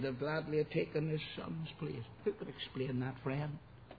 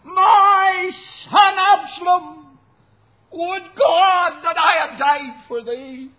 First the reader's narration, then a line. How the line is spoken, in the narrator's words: he cried